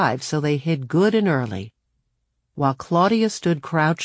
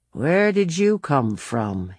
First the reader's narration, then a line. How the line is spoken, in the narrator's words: he asked